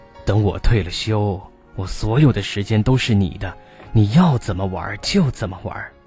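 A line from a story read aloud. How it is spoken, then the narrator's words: Apologetic. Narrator (Chinese): 面对老伴儿无言的哀叹，他也总是抱歉的说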